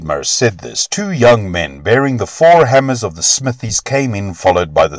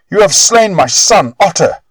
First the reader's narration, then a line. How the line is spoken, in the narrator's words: shrieked the old man